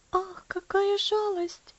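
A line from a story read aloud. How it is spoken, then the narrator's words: Sighing. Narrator (Russian): вздохнула Элси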